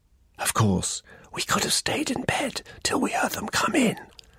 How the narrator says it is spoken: he whispered

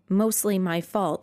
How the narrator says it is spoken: Finn said

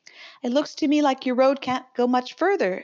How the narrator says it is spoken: remarked cheerfully

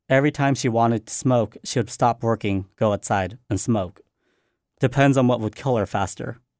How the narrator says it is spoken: Tevi says

